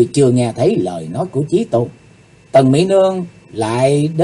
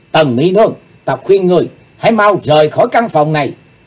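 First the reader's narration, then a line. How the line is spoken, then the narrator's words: Sudden shout. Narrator (Vietnamese): Bỗng Chí Tôn hét lên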